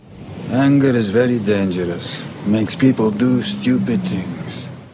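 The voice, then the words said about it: Russian accent. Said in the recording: “This was Viggo Mortensen in the movie Eastern Promises. If you said Russian accent, then point for you.”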